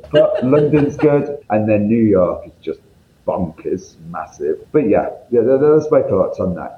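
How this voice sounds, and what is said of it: Northern English accent. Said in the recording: “you can tell by my accent, I'm from up north”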